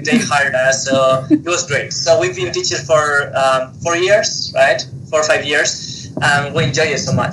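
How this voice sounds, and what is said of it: Spanish-accented English. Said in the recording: “as you can tell, we have an accent. So we are originally from Spain”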